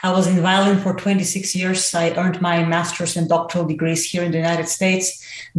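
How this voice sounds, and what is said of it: Bulgarian accent. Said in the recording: “because I'm Bulgarian. I mean, obviously my accent, I haven't been able to overcome that to save my life”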